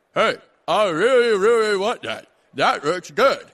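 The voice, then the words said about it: Mock American accent. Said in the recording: “my impression of doing American ... my impersonation of American”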